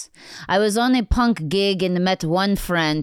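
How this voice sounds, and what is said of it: Put-on Russian accent. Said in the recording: “read the first one with a Russian accent”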